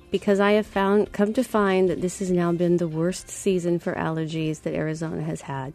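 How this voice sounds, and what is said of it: Congested, cold-like voice. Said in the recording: “if I sound like I have a cold”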